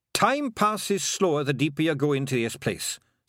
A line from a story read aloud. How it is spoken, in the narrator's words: said Rob Anybody quickly